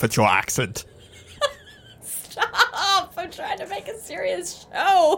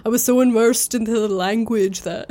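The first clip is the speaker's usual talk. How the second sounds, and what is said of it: Put-on accent voice. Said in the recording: “I don't laugh at your accent.”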